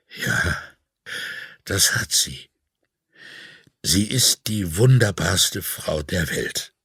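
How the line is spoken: Trembling voice. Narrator (German): sagte er mit bebender Stimme

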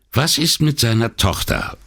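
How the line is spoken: Plain question. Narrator (German): fragte Brunetti

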